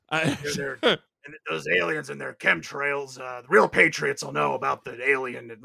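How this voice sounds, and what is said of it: Imitates another person's voice. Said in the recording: “I'm going to destroy my voice doing an impression of a horrible man.”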